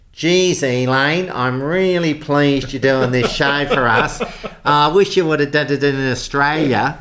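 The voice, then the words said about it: Broad old-fashioned Australian accent. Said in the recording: “my Australian accent sounded like Chips Rafferty, who was an old Australian film star ... it's sounding so broad”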